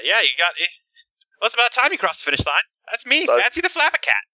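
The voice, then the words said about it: Character voice drifting into Irish accent. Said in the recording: “Now she slowly turns Irish... I can't do the voice without her turning Irish for some reason”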